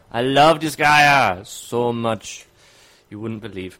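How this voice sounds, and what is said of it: Briefly Jamaican-sounding accent. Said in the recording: “sounded kind of Jamaican”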